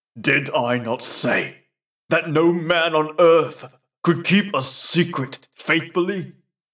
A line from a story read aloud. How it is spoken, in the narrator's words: He cried sternly to the lad